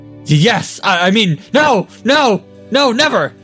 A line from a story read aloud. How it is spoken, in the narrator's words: Stevo shrieked